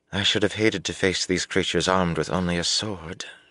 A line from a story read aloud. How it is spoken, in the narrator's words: she murmured